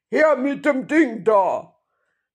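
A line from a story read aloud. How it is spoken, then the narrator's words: Gruff voice calling. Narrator (German): eine barsche Stimme rief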